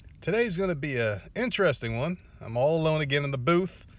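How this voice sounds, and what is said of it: Fake radio announcer voice. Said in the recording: “using my fake radio voice”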